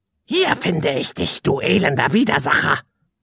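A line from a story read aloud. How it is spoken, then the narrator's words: Croaking voice from above. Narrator (German): krächzte eine Stimme von oben herab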